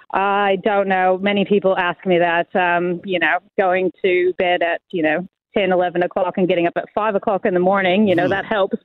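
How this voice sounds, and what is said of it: Speaks with a slight accent. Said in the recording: “there's a bit of an accent there”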